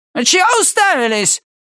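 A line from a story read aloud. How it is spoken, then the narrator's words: Barked gruffly. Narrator (Russian): рявкнул он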